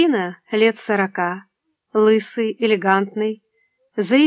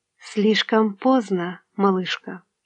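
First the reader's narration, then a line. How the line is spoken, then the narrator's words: Whisper. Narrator (Russian): Мадлен прошептала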